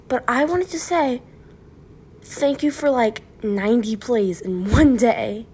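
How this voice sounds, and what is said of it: Weird-sounding voice. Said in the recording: “my voice is all weird. I just woke up.”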